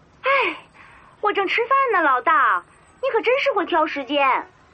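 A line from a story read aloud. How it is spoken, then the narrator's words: Loud complaint while eating. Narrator (Chinese): 正在吃饭的李云威大声的抱怨着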